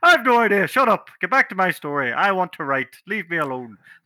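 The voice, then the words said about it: Put-on Irish accent. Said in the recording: “I don't know why she suddenly got an Irish accent”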